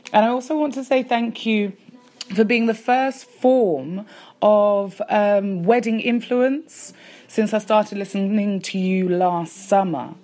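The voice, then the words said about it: East London English accent. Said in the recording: “I am from East London ... an English accent ... represent from London”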